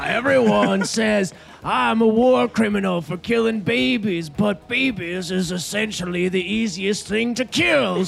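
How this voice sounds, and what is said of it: Mocking Southern accent. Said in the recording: “I'm a big dumb idiot from the South ... Don't make fun of my accent.”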